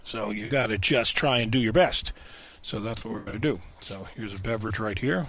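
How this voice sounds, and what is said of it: Raspy, hoarse voice. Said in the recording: “I didn't expect to be raspy this soon, but apparently I am.”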